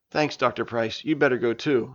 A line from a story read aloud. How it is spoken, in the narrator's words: said Sean